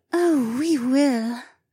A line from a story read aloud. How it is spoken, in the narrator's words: Becca purred